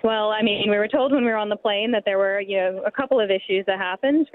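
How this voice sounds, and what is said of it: American accent. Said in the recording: “I can sense a bit of an accent. ... I'm from the States.”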